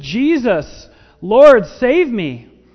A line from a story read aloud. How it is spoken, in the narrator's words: screamed and he said